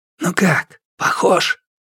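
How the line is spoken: Whispering. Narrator (Russian): Эрхуа говорил шепотом

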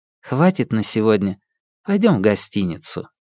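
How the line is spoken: Calm speech. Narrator (Russian): она спокойно сказала

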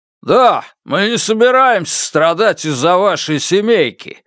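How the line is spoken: Man shouting. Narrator (Russian): выкрикнул мужчина

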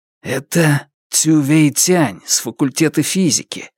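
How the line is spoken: Whispered in ear. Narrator (Russian): прошептал Лю Чанчжун на ухо Фан Му

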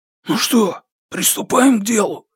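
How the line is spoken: Hoarse question. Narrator (Russian): хриплым голосом спросил один из них

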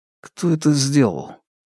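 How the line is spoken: Quiet question. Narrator (Russian): Фан Му спросил негромко

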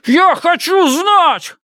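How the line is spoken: Shouting. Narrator (Russian): кричал

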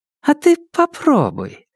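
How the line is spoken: Ingratiating, insinuating tone. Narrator (Russian): вкрадчивым тоном произнесла Ляо Яфань

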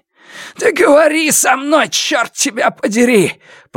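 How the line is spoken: Hoarse rasp. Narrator (Russian): прохрипел Сяо Вон

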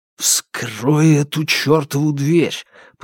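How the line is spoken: Hissed through teeth. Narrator (Russian): прошипел Фанму сквозь зубы

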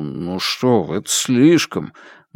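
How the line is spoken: Constant muttering. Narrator (Russian): Ян Джи Сен все время бормотал

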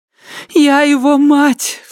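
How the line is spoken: Sobbing repetition. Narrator (Russian): всхлипывая, повторяла она

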